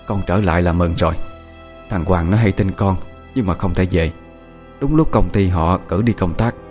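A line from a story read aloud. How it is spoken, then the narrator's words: Soft voice. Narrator (Vietnamese): dì Hải khẽ nói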